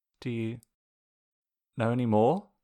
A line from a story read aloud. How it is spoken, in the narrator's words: Zuko asks hesitantly